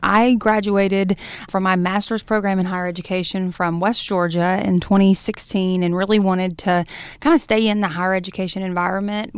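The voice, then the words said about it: Slight Southern American twang. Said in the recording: “As you can hear from this little twang I have, I grew up here.”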